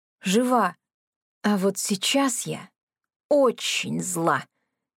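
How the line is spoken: Slow quiet menacing drawl. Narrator (Russian): Медленно, негромко, но очень угрожающе протянула я

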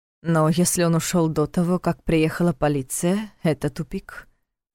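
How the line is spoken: Sighing. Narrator (Russian): вздохнул Войтых

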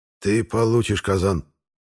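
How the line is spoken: Through gritted teeth. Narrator (Russian): Сквозь зубы сообщил мне Рабих

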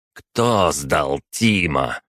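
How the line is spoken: Through gritted teeth. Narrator (Russian): процедил ректор

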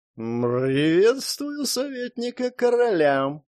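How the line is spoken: Purring. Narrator (Russian): мурлыкнула

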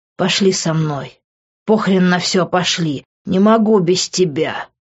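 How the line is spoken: Hoarse desperate plea. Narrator (Russian): хриплю я

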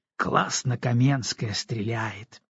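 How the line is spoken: Admiring sigh. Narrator (Russian): восхищенно вздохнул Роман

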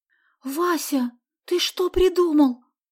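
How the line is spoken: Frightened question. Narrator (Russian): Испуганно спросила Соня

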